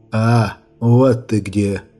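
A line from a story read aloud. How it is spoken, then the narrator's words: Hoarse rasp. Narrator (Russian): прохрипел голос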